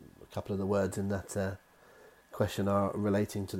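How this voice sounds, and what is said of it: Usual voice. Nothing is said of it.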